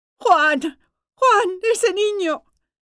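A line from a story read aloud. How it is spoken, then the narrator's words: Shrieking. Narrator (Spanish): Gloria chillando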